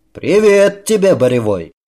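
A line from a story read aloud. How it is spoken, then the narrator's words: Old warrior shouting. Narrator (Russian): прокричал такой же старый крепкий воин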